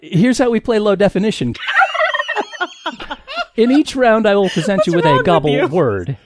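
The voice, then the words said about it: Comic turkey character voice. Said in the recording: “a turkey who does impressions and speaks pretty good English”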